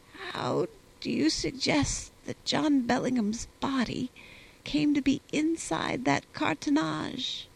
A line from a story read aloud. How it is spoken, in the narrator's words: in a faint voice, he asked